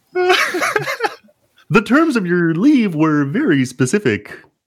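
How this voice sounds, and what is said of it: Kermit the Frog character voice. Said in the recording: “my impression of Kermit the Frog impression is my making fun of that friend”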